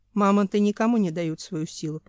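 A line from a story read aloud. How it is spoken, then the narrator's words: Didactic, lecturing tone. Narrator (Russian): поучительным тоном сказал Семен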